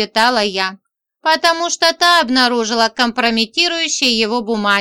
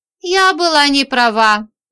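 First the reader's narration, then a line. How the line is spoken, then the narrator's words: Sighing. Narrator (Russian): вздохнула Женька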